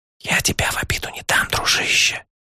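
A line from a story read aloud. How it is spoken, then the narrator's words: Soft whisper. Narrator (Russian): тихо шепнул я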